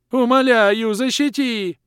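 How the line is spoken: Continued wailing. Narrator (Russian): Продолжал вопить Лохр

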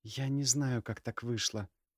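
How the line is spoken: Quiet reply. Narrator (Russian): тихо ответила она

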